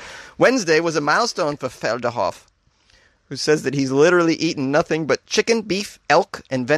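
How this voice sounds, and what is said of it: Usual voice. Nothing is said of it.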